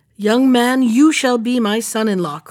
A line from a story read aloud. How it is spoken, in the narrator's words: cried the king